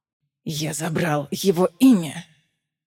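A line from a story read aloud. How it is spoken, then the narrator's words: Hissed. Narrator (Russian): шипел Эраван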